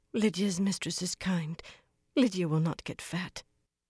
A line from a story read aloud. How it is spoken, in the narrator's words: Lydia murmured